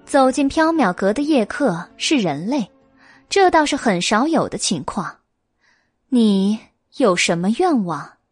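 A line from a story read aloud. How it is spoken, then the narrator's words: Calm, smiling. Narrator (Chinese): 白鸡却很淡定，他笑着对虬髯大汉说道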